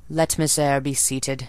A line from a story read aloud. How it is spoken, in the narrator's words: said impatient yet formal tone